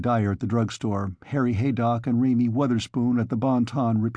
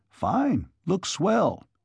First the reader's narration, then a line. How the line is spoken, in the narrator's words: The carpenters and painters who did not actually assist crossed the lawn to peer through the windows and exclaim